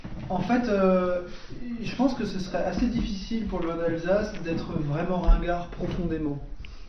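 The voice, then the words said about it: Noticeable regional accent. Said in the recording (French): “l'accent qui revient. Le côté chauvin. ... il fait quoi cet accent ? Pourquoi il y a l'accent ?”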